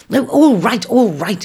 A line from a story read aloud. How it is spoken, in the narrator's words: he shouted above the bird's babble